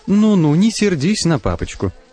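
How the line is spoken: Cooing. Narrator (Russian): принимается ворковать Тамара

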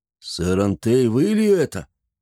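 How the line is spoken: Hoarse, slurred, astonished. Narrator (Russian): С огромным удивлением в голосе, хрипло и изрядно заплетающимся языком спросил он

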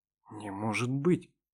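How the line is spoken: Shocked whisper. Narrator (Russian): потрясенно прошептал

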